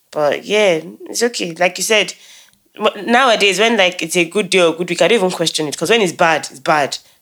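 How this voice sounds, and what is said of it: Voice affected by a cold. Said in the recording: “Battling one useless cold, as you can tell in my voice”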